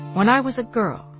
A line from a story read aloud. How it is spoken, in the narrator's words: she said